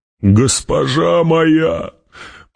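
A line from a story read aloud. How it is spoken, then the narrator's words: Groan, holding back tears. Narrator (Russian): простонал Гурни пытаясь сдержать вскипающие слезы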